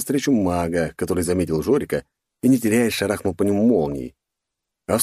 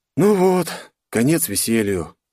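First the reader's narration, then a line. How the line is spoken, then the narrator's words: Sad. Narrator (Russian): грустно обратился к Жорику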